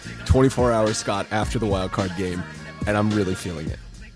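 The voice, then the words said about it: Hoarse, nearly lost voice. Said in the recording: “You can tell by my voice, it's still gone.”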